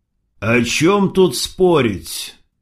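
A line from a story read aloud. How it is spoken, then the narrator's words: Dry. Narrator (Russian): сухо сказал Крот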